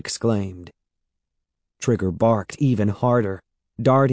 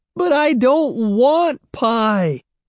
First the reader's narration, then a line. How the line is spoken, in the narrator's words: Evan wailed